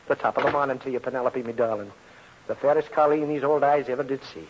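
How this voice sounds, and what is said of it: Corny put-on Irish brogue. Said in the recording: “corny brogue”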